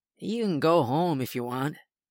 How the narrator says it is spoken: he slurs

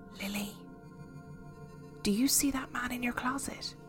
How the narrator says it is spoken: my friend beside me whisper hesitantly

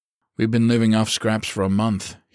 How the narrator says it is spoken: he grunted playfully

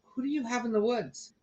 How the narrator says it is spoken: whispered

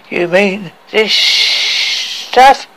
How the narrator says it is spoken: said with a slurred voice

